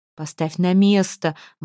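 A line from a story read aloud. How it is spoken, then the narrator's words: Wailing howl. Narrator (Russian): взвыл Арминтроуд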